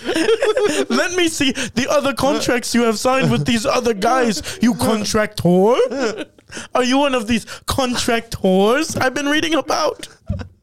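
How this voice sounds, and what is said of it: Robotic, oddly European-sounding put-on accent. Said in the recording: “Why do you have an accent like that? ... anytime I do a Sean accent, it just reminds me of like a robot almost ... It's like American, but not like it's ... sounds weird ... European”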